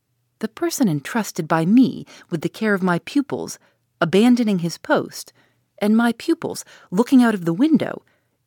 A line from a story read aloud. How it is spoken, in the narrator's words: exclaimed Dr